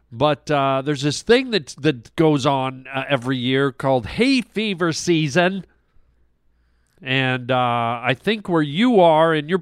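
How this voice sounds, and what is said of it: Nasal, stuffy congested voice. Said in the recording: “a little nasally, a little stuffy. I sound a little more like deviated septum-y than I normally do”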